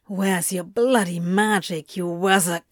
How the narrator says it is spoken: he growled at Antony

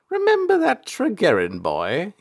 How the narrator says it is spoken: he chuckled

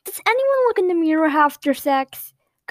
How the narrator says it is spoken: Comedy blurted out randomly

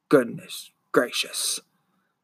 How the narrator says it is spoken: the man muttered

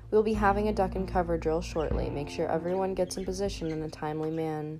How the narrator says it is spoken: hammered on in a monotone voice

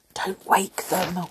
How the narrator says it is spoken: whispered Joe

